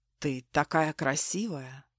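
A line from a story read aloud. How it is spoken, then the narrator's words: Whisper. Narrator (Russian): шепнул Марк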